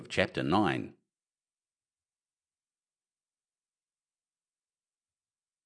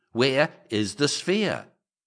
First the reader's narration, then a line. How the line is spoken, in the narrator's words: I cried